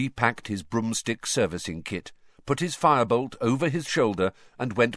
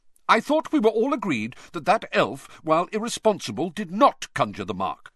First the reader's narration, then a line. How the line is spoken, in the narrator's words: said Percy hotly